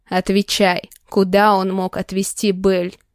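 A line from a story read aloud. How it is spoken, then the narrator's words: Growled. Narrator (Russian): Прорычал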